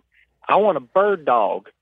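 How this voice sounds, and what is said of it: Put-on Southern US accent. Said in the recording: “I'm going to do my best Southern accent”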